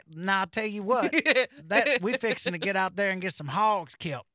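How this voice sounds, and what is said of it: Put-on Southern accent. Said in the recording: “That is a Southern accent right there.”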